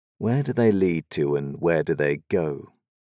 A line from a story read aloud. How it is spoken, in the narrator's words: She sighs